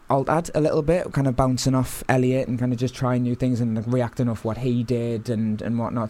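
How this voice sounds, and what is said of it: Newcastle accent with a twang. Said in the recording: “I'm originally from Newcastle, you can probably tell. ... bit of a twang there.”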